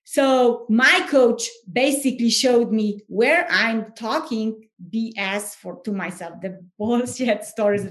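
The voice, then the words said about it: Foreign accent. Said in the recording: “because I'm foreigner, because I have accent.”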